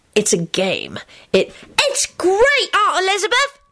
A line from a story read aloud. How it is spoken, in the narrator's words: Teddy shrieked